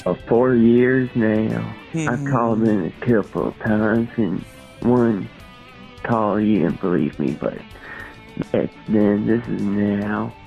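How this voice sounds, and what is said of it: Speaks with a real accent. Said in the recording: “this sounds like a real accent.”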